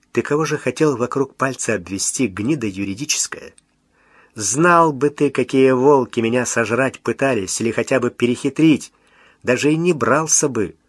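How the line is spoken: Calm, contemptuous, superior. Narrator (Russian): сказал совершенно спокойно, брезгливо, с несомненным превосходством

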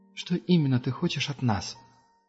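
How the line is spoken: Gentle question. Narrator (Russian): мягко спросила Герда

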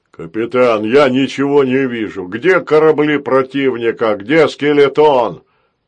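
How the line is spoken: Deep bass voice. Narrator (Russian): пробасил Грохотун

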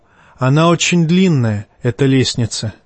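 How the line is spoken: Sigh. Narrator (Russian): вздохнул

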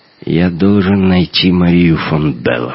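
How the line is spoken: Hoarse. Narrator (Russian): хрипло проговорил Эрвин

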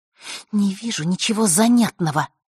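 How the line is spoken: Through gritted teeth. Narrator (Russian): процедила она в ответ

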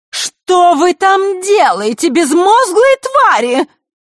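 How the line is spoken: Sudden shrill shriek. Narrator (Russian): Визгливый голос Елены раздался, как гром посреди ясного неба

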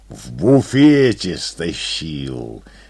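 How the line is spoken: Proud growl. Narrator (Russian): с гордостью прорычал он

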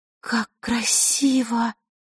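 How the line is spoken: Breathless admiring exhale. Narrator (Russian): выдохнула Василиса

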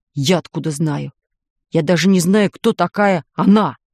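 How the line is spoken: Snapping retort. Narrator (Russian): огрызнулся дядя Герман

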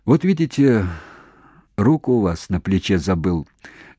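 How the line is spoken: Muffled gentle voice. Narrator (Russian): глуховатым ласковым голосом сказал он докторше

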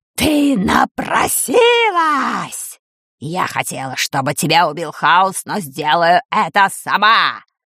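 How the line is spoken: Furious roar. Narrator (Russian): Взревела чума Дель Торт

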